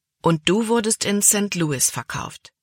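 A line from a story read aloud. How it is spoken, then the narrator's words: Plain question. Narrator (German): fragte Kapitän Norstad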